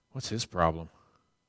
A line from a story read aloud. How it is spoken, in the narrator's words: one of the nominating committee people whispers